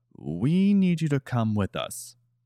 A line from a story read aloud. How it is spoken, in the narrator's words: The man just calmly said again